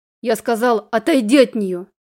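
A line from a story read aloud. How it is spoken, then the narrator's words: Growling from above. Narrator (Russian): Сверху послышалось уже хорошо знакомое мне рычание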